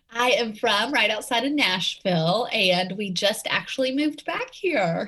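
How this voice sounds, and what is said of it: Southern Tennessee accent. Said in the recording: “you have that beautiful Southern accent ... I can't ditch the Tennessee accent”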